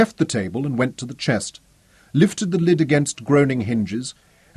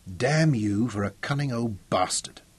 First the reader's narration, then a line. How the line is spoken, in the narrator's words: said quietly